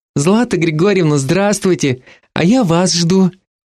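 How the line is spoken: Sickly-sweet voice. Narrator (Russian): приторно-сладким голоском сообщила она

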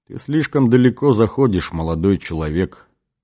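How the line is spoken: Cold, detached tone. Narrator (Russian): промолвил отец-координатор холодным, отчужденным тоном

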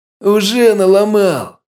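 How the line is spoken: Loud howl. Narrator (Russian): Громко взвыл Перун

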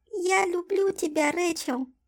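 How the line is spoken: Thin tiny doll voice. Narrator (Russian): сказала куколка тоненьким голоском

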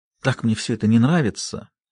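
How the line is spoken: Noisy exhale. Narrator (Russian): Линда шумно выдохнула

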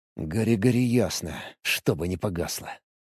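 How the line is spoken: Quiet. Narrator (Russian): тихо произнес я

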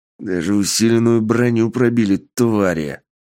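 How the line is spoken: Growling. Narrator (Russian): прорычал Сергей

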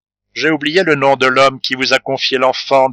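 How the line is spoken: Plain. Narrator (French): dit la comtesse

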